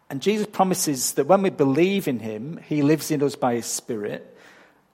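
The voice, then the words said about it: English accent. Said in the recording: “I'm not from round here. I'm from England. And I don't think my accent has changed much since I got here 14 years ago... Australian changes have crept in”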